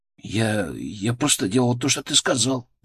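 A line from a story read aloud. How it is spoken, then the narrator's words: Muttering. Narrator (Russian): пробормотал он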